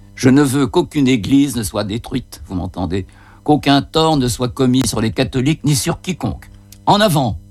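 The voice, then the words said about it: Occitan accent with rolled r's. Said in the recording (French): “son accent occitan qui roule les airs”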